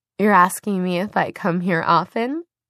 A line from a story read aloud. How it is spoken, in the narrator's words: She giggled